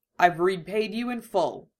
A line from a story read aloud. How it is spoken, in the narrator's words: he says